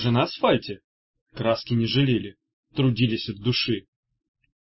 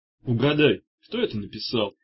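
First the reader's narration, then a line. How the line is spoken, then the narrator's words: Lazy question. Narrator (Russian): лениво спросил Меф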